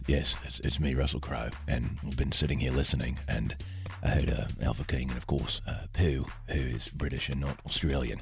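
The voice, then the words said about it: Russell Crowe impression. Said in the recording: “you have a great Russell Crowe impression.”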